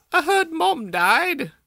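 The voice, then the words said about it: Fake British accent. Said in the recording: “He's British now, sorry. ... He's doing a fake British accent at this point. ... Or a French one.”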